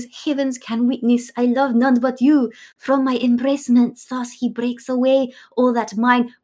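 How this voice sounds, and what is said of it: French accent drifting into Scottish. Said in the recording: “Where's this accent coming from? ... Your French very quickly became a Scottish.”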